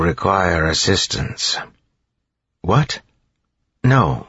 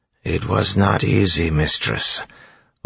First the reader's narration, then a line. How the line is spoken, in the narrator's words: Orsure said flatly